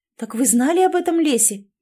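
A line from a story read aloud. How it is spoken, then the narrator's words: Exclaimed. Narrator (Russian): воскликнула Элизабет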